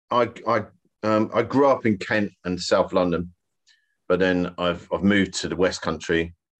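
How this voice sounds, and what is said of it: Softened Kent/London English accent. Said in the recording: “I still sound like I'm from Kent, or like, you know, I sound like I'm from London ... This is my posh voice now.”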